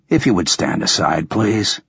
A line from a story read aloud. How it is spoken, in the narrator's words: I said calmly